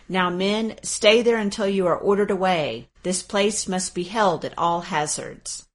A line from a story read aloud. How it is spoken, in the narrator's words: he called out